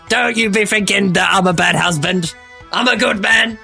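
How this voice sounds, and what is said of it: Cockney goblin voice. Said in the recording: “I'm doing a fucking Cockney goblin accent.”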